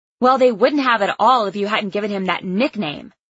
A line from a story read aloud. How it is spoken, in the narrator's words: spat out